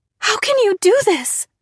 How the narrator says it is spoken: I cried

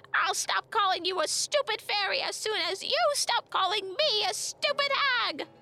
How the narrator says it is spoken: The second voice screeched back

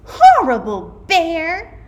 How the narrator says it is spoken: the girl shouted

